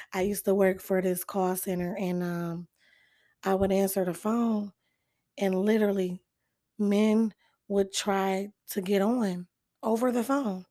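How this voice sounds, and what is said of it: Hoarse, strained voice. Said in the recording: “You can tell I lost my voice. ... do I sound real sexy?”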